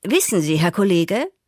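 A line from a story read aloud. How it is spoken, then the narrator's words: Confessing. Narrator (German): bekannte ich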